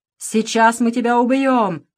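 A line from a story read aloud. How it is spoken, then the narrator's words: Menacing growl. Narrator (Russian): зарычал одноглазый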